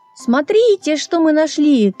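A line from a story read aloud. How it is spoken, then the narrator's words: Shout. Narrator (Russian): крикнул мумми-тролль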